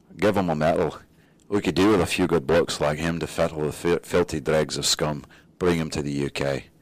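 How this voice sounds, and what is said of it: Poor attempted English accent, sounds Scottish. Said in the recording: “read this in an English accent ... That's not English. That is Scottish. ... My English accent's just atrocious.”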